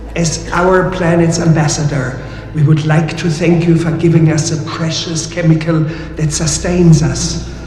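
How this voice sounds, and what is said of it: Character voice with German accent. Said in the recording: “Why does it have a German accent?”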